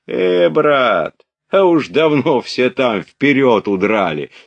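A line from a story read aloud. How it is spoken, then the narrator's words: Laughing. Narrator (Russian): сказал Ростову солдат, смеясь чему-то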